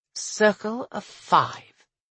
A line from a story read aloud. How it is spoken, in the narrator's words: Carlin murmured